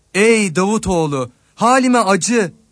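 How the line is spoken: Shouting louder. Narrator (Turkish): diyerek daha çok bağırdı

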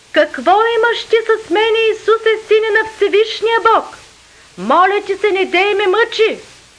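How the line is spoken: Loud cry. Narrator (Bulgarian): извика, рече със силен глас

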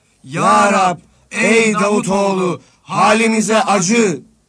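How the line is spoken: Group shouting louder. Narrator (Turkish): diyerek daha çok bağırdılar

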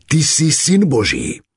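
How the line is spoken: Shouting spirits. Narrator (Slovak): nečistí duchovia, kričali

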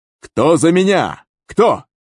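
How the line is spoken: Shout. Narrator (Russian): крикнул

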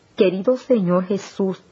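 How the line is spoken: Exclaiming. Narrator (Spanish): exclamé

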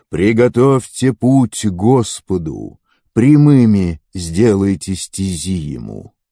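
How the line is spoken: Loud cry in wilderness. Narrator (Russian): Голос громко взывающего в пустыне

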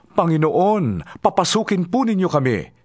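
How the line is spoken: Group shouting. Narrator (Tagalog): sigaw nila

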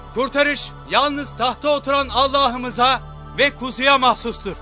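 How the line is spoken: Loud crowd crying out. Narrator (Turkish): Yüksek sesle haykırarak şöyle diyorlardı

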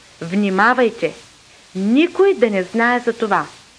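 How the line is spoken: Stern. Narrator (Bulgarian): заръча строго, като каза

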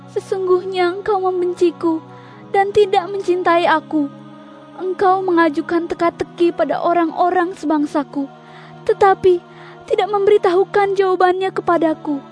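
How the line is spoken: Tearful speech. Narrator (Indonesian): istri Simson menangis di hadapan Simson sambil berkata

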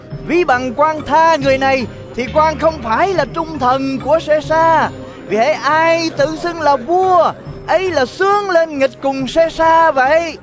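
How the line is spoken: Crowd crying out. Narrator (Vietnamese): dân Giu-đa kêu lên rằng

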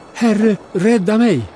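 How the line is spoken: Called out. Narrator (Swedish): Han började sjunka och ropade

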